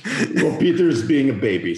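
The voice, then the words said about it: Put-on Bulgarian accent. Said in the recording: “flawless Bulgarian accent”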